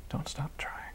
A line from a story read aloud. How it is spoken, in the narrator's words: Raven could only whisper